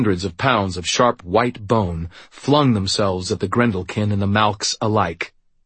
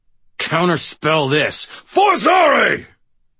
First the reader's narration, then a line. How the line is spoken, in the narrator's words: snarled